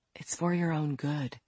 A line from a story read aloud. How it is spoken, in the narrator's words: she said tenderly